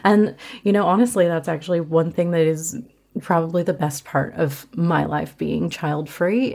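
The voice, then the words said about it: Slight Australian twang. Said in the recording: “a little bit of an Australian twang, I've been told that I do have that now”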